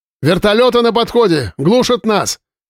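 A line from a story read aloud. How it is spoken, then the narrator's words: Operator shouting. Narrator (Russian): крикнул оператор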